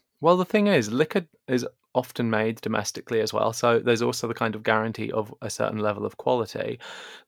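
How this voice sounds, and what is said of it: English accent. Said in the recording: “I'm sure the listeners can guess from my accent, but I am English.”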